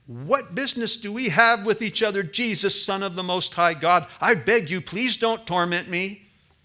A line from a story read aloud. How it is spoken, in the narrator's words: with a loud voice, he shouted